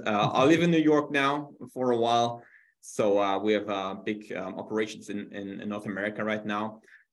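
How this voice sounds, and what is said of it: German accent. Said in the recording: “originally from Germany, as you can hear from my fantastic accent”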